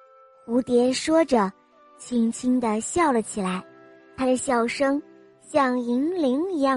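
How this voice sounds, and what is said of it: Usual voice. Nothing is said of it.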